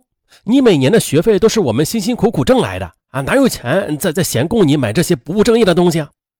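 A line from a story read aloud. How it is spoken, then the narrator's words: Angry. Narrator (Chinese): 父亲却十分的恼怒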